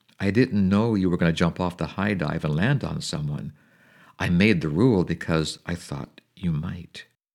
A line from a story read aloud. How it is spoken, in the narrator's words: said softly